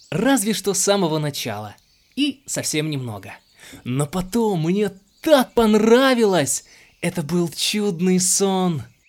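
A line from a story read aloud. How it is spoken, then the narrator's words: Joyful stream exclaiming. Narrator (Russian): Радостно воскликнул ручей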